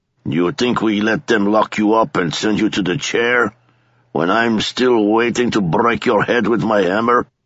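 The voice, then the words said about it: East European accent. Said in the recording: “His accent was East European.”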